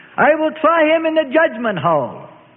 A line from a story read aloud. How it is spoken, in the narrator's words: Turning to the crowd, the governor shouted